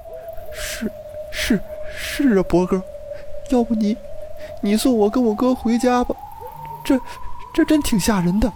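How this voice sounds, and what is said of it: Trembling, stammering frightened voice. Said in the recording (Chinese): “用颤抖的声音说道”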